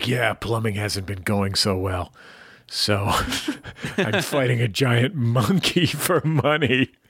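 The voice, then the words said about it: Haggard Mario cartoon character voice. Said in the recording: “Great Mario impression, ... He sounds very haggard in your version.”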